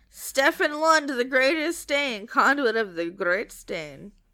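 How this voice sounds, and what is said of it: Put-on accent with rolled R's. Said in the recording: “I don't know where that accent came from, but I was really into it. ... I just felt like rolling my R.”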